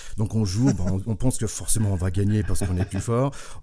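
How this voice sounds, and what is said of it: Slight American accent in French. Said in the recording (French): “en tant qu'Américain, d'où mon petit accent”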